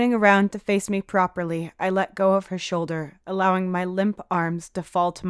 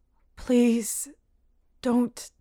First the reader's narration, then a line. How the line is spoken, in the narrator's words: mumble, wiping my eyes